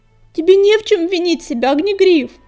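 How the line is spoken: Exclaiming. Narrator (Russian): воскликнула невидимка

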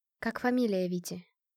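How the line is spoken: Whispered question. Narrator (Russian): поинтересовалась я шепотом

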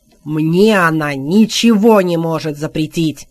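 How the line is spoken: Growled. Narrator (Russian): зарычал Морган

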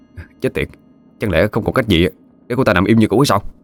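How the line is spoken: Muttering. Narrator (Vietnamese): Cậu ta miệng lẩm bẩm

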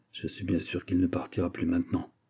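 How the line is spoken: Murmured. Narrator (French): murmura le chevalier de Lorraine

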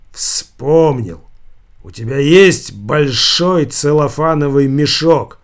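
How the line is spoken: Loud. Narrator (Russian): продолжал громко говорить свиньи

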